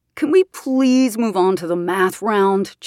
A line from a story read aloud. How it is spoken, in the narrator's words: JP whined